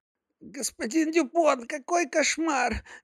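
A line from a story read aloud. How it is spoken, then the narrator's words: Worried babbling. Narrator (Russian): лепетала обеспокоенно консьержка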